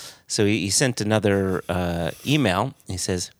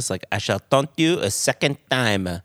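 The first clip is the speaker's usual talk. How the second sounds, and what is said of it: Exaggerated fake French accent. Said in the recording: “Sounded more like Inspector Clouseau from the Pink Panther movie ... with a terrible French accent ... I feel like I nailed it. Apologies, any and all French people.”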